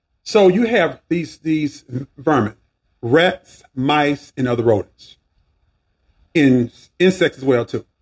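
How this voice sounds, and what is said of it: Southern American accent. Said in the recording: “My southern dialect sometimes bring words together, letters together.”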